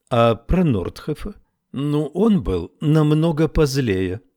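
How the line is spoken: Trained teacher's tone. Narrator (Russian): сказала Фиона своим поставленным учительским тоном

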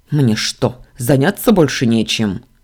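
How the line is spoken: Angry bark. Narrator (Russian): рявкнул Дамиан

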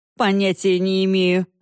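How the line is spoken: Laughing. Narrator (Russian): засмеялся Корт

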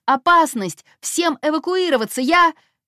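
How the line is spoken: Yelled over intercom. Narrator (Russian): Дев орал в интерком

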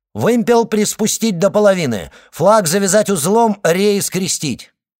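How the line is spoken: Shout. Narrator (Russian): Потом он крикнул

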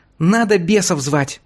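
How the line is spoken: Thin squeak. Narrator (Russian): пропищал тонкий

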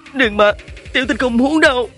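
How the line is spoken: Sobbing plea. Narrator (Vietnamese): Hứa Tình khóc nức nở, nói

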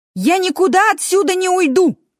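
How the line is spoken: Furious shout. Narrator (Russian): яростно крикнул Лу

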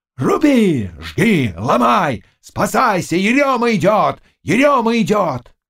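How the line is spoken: Shouted. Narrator (Russian): Заглоба кричал

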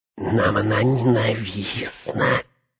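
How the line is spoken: Hissed. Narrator (Russian): прошипел он

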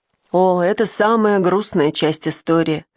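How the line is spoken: Baroness's heavy sigh. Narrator (Russian): тяжело вздохнула баронесса

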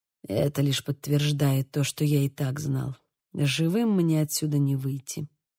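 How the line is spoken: Prisoner's mutter. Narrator (Russian): пробормотал узник

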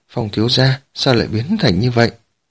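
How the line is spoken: Frightened. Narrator (Vietnamese): Tần Tứ Nương sợ hãi nói

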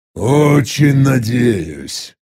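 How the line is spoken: Displeased hiss. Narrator (Russian): Недовольно прошипел я

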